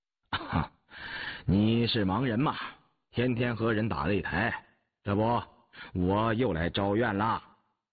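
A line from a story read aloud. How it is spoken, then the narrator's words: Forced laugh, suppressed anger. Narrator (Chinese): 年羹尧此时真是气得无话可说 才按住火气，干笑了一声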